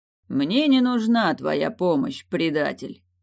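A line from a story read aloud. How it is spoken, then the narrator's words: Calm reply. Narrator (Russian): Все так же спокойно ответствовал Крислав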